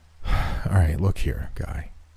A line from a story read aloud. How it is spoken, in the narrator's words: I sighed, my inner smartass about to reemerge